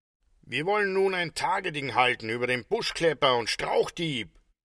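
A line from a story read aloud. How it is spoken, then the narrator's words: Calling out. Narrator (German): rief Hans von Stein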